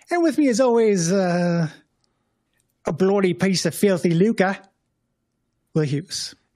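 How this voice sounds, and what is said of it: Put-on accent, convincingly done. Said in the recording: “my excellent accent work ... It sounded great. ... I can do one line of an accent.”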